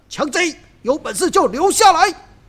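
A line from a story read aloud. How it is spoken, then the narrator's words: Loud shout while chasing. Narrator (Chinese): 燕青和主人卢俊义追杀了过来，大叫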